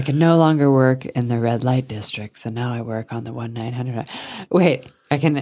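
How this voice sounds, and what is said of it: Usual voice. Nothing is said of it.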